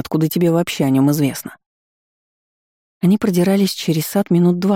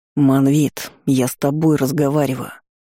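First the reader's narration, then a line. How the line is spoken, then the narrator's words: Hissed. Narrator (Russian): прошипел Наэль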